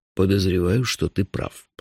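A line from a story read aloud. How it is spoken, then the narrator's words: Grumbling. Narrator (Russian): проворчал шеф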